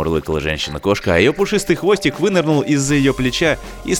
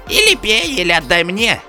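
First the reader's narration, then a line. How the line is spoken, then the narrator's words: Old man's shrill squeal. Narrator (Russian): взвизгнул старик-почтальон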